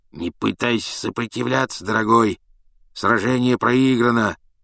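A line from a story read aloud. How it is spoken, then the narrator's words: Hoarse voice. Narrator (Russian): ответило зеркало хриплым голосом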